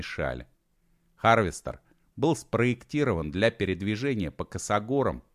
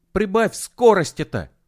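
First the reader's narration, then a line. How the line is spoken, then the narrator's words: Petulant shout. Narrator (Russian): капризно крикнул Костик, будто Серега был виноват перед ним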